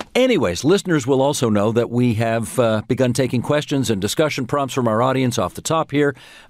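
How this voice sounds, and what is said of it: Deep, hoarse voice from a cold. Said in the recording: “as people may be able to hear, I could do a really good impression of Brian Mulroney right now... I think I got a little something happening here... This is a good old-fashioned cold.”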